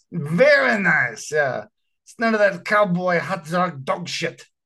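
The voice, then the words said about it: Imperfect put-on Russian accent. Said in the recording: “My Russian accent needs some work.”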